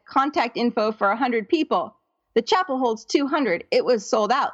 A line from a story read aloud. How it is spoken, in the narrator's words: Leah said